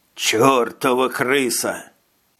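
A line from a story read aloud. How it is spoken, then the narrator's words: Grumble then cough. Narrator (Russian): Проворчал он и закашлялся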